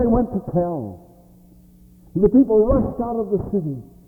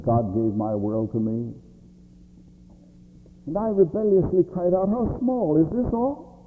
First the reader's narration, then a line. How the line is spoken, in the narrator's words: His voice was sad yet mild,